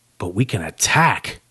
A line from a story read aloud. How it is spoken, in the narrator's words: Max hissed back